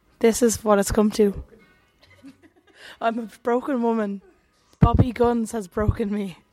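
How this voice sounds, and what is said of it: Hoarse, nearly lost voice. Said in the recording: “I have lost my voice.”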